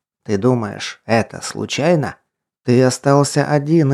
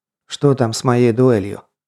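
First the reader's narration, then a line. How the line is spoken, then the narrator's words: Calm inquiry. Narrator (Russian): уже спокойным тоном поинтересовался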